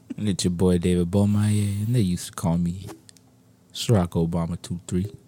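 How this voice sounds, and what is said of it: Late-night talk radio voice. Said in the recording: “with the late night talk radio voice”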